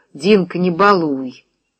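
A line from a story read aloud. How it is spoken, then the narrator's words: Quiet. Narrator (Russian): он негромко сказал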